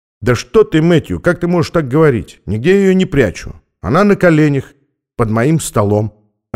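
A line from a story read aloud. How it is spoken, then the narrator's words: Calm. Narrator (Russian): ответил спокойно Стэнли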